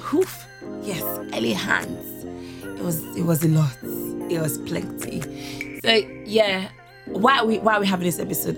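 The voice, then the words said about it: Cracked, strained voice. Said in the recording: “my voice is cracked”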